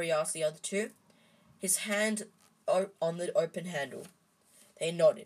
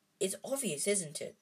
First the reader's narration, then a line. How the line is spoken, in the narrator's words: said Ron